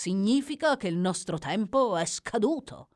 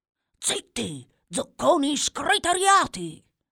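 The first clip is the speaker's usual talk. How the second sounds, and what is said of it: Whispered. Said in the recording (Italian): “Sussurrò”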